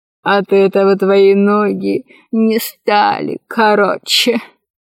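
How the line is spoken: Laughing. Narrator (Russian): засмеялся Дуагим

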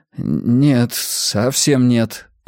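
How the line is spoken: Stammering mutter. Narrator (Russian): заикаясь, пробормотал он

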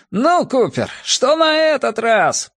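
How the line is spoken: Shouted. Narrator (Russian): прокричал он

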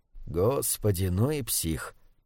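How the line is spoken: Muttered. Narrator (Russian): Пробормотал Брайан

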